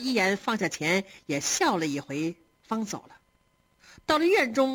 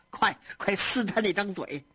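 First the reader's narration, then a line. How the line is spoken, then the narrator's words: Laughing hard. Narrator (Chinese): 贾母笑得手里的牌撒了桌子，跟鸳鸯说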